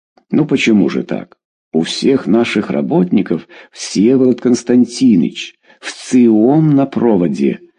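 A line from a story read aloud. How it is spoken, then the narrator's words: Plain, over intercom. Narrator (Russian): сказал селектор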